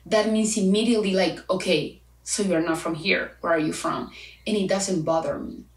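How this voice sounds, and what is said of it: Spanish-accented English. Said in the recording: “my accent ... I'm actually proud of my accent ... Of course I have an accent. For like 24 years of my life, I speak Spanish.”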